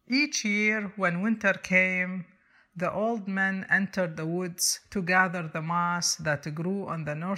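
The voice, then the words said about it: Non-native accent in English. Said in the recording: “I hope you excuse my accent in English”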